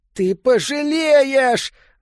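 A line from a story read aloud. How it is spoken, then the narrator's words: Yelling. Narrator (Russian): заорал Питеркин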